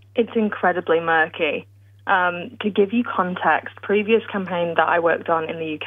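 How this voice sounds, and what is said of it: British accent. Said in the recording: “I'm British, as you can tell by my accent,”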